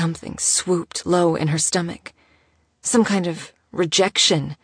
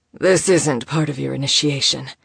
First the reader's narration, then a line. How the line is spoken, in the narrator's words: said huskily